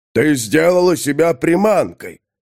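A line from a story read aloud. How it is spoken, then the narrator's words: Booming drone. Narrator (Russian): прогудел Тулгорд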